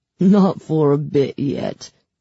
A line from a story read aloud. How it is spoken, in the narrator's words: he chuckled